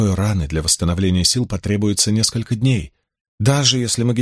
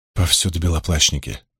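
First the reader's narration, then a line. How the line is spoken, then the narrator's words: Sighing. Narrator (Russian): вздохнула Найниф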